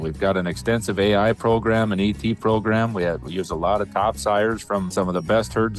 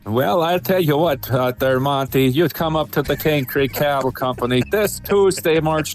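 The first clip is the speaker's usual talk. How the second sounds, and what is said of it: Put-on Norski accent. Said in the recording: “your best uh, Norski accent”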